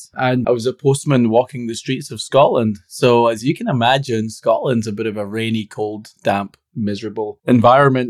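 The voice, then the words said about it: Scottish accent. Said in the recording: “as you can tell with the accent ... my origin is a bit Scottish”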